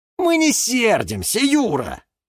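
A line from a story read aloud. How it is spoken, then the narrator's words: Group shouting. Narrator (Russian): закричали зеленые друзья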